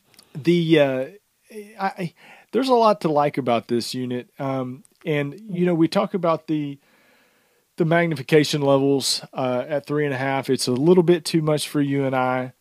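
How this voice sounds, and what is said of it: Strained, fading hoarse voice. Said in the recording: “I feel like I'm losing my voice here.”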